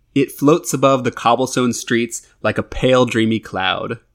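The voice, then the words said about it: Put-on airy lifestyle-magazine voice. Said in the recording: “put on my best goopy voice”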